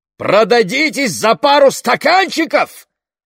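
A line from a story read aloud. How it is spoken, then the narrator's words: Father shouting. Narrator (Russian): выкрикнул отец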